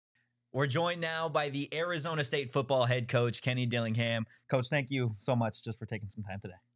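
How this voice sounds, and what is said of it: Formal newscaster-style voice. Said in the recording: “news voice comes back up... my news voice comes out”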